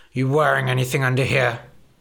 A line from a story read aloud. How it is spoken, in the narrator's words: He grunted